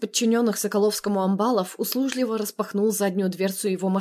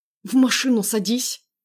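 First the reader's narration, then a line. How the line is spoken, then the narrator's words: Through gritted teeth. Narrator (Russian): процедил сквозь зубы Андрей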